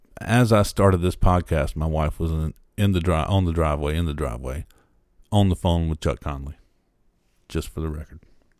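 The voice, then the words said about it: Southern American accent. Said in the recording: “No matter how I say it, it'll sound Southern.”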